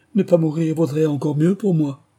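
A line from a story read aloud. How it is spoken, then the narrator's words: Desperate exclamation. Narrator (French): s'exclama Bertie désespéré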